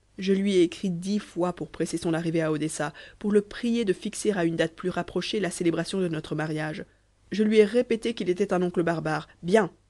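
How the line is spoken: Exclamation. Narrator (French): s'écria Nedjeb

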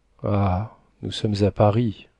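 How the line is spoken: Murmuring. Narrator (French): dit-il en murmurant

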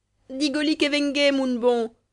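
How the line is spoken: Playful saucy woman's shout. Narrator (French): cria la mauresque, avec un joli geste canaille

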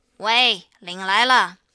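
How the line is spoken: Loud calling. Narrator (Chinese): 大声的叫道

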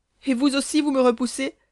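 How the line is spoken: Heartbreaking cry. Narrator (French): s'écria Hélène avec un accent qui déchira les cœurs

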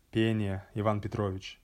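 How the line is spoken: Sad reply. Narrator (Russian): Я ответил грустно

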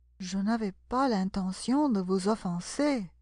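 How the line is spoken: Conciliatory voice. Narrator (French): dit Alice d'une voix conciliante

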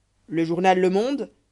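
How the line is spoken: Protesting. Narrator (French): protesta

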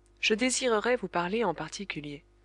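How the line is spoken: Plain. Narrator (French): répondit Kin Fo

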